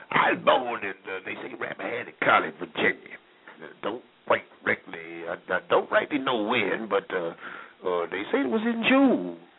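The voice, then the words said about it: Old-time vernacular voice of an ancestor. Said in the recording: “I do a one-person monologue of my great-grandfather, slave, soldier, farmer, in the vernacular, in uniform ... this impersonation”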